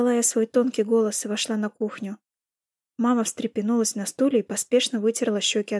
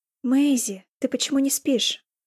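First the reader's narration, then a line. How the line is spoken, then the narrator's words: Upset question. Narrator (Russian): расстроенным голосом спросила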